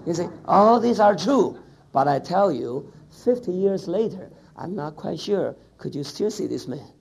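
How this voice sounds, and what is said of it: English with a Chinese accent. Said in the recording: “am I speaking a kind of good English with my wonderful Chinese beautiful accent?”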